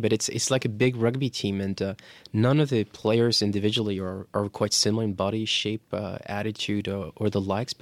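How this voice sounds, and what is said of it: Irish accent. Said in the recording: “my Irish accent is coming back”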